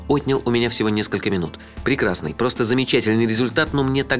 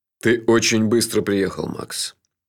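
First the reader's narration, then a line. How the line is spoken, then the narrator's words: Sad. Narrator (Russian): печально сказал шеф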